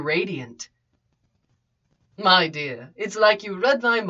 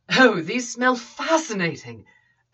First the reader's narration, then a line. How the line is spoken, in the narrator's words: Obi-Wan exclaimed